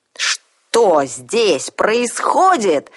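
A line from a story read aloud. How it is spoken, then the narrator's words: Woman shouting. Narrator (Russian): закричала она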